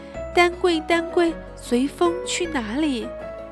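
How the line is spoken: Loud defiant shout. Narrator (Chinese): 信也不甘示弱地大声叫喊起来

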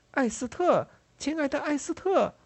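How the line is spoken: Calling out. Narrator (Chinese): 有一个人在喊

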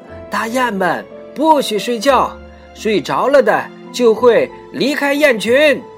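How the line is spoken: Calling out repeatedly. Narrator (Chinese): 阿卡不停地呼喊道

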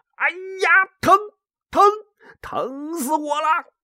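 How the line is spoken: Yelling in pain. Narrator (Chinese): 嘴里还喊着

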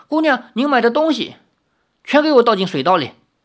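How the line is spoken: Angry. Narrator (Chinese): 林月如怒道

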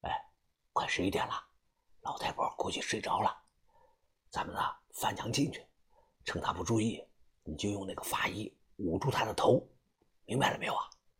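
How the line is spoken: Low voice. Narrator (Chinese): 他低声

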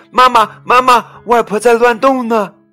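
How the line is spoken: Nervous child calling. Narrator (Chinese): 小乐以为他会摔下来，紧张的跑去叫妈妈

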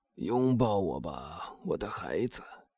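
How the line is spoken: Old man, hoarse. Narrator (Chinese): 老人用一种嘶哑的声音答道

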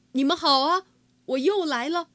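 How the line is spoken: Proud, loud. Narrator (Chinese): 哈瓦尔昂首挺胸，大声说

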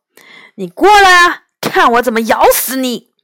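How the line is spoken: Loud. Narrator (Chinese): 大灰大声说

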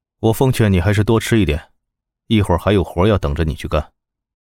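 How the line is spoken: Calm, indifferent. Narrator (Chinese): 他淡淡的开口

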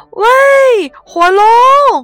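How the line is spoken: Shouting as loud as possible. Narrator (Chinese): 他尽可能的大声的喊

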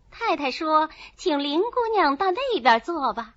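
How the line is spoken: Smiling maid. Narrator (Chinese): 一个穿红绫袄、青缎掐牙背心的丫鬟…笑着说

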